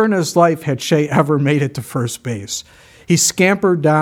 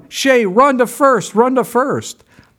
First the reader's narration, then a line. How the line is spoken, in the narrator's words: Everyone started yelling